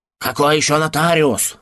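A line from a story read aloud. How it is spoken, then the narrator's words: Irritated exclamation. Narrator (Russian): раздраженно воскликнул Эрси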